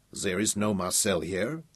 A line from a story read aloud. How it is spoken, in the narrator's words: the Frenchman protested irritably